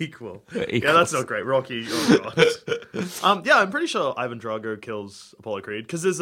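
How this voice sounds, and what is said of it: Usual voice. Nothing is said of it.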